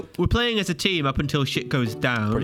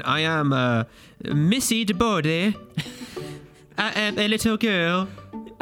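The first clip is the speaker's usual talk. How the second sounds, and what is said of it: Little girl character voice. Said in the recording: “your little girl voice ... That's my little girl voice ... You sound like Cartman from Family Guy”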